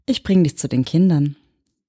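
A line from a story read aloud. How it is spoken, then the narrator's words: Gentle voice. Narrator (German): sagte sie mit sanfter Stimme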